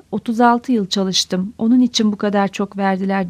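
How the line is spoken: Trembling voice. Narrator (Turkish): Titrek bir sesle

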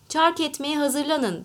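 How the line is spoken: Shouting. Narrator (Turkish): diye bağırdı

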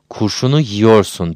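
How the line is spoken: Grumbled. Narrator (Turkish): diye homurdandı

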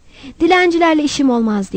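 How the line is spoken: Shouted. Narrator (Turkish): diye bağırdı

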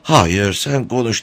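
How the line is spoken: Pleading reply. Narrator (Turkish): diye cevap verdi Malka yalvarırcasına

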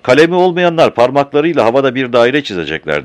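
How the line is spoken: Shouted. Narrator (Turkish): diye bağırdı

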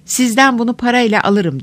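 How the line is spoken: Crying out. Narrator (Turkish): diye haykırdı

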